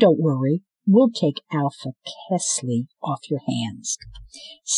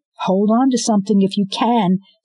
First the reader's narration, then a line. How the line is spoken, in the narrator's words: Scarlet yelled